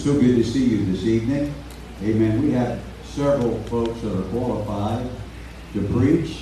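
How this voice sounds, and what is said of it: Hoarse preacher's voice. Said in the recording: “I'm a little hoarse, you might tell that from this morning. And probably will be more than likely a little bit more hoarse”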